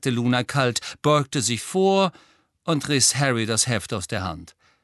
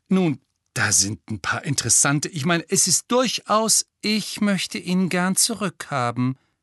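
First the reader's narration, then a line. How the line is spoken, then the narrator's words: Embarrassed stammer. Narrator (German): stammelte Hermine peinlich berührt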